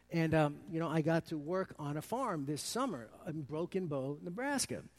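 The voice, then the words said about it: Brooklyn New York accent. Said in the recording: “my Brooklynese accent... I'm from New York City”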